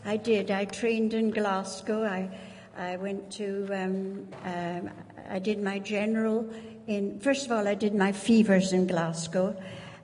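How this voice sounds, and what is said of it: Scottish accent, southwest Scotland. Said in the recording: “that accent isn't a Devon accent. ... No, it's from the southwest, of Scotland.”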